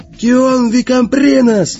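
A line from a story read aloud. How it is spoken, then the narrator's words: Yelling. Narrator (Russian): заорал он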